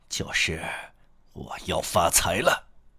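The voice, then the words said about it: Short, low, clipped male voice. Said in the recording (Chinese): “他用短促而低沉的声音说”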